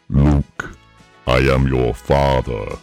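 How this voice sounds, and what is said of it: Darth Vader impression. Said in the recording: “you can't do a Darth Vader impression. ... I'll do one for you.”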